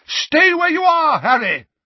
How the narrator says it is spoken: Dumbledore bellowed

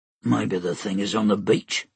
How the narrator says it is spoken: Stike grunted

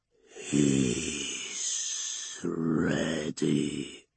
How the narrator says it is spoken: Slorn hisses, a dry whisper through old vocal cords

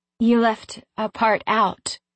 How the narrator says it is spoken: I said, my voice shaking

